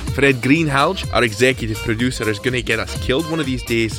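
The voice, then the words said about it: Strong regional accent. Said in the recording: “making no apologies for this accent whatsoever.”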